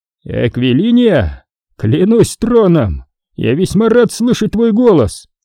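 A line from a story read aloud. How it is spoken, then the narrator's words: Exclamation. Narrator (Russian): воскликнул Киран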